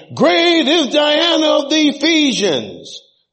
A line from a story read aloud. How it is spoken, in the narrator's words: they were full of wrath and cried out, saying